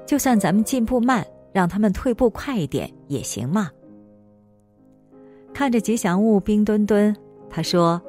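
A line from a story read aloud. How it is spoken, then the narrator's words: Laughing. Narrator (Chinese): 王梦笑着说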